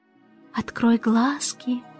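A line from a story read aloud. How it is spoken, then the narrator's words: Gentle. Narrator (Russian): мягко сказал он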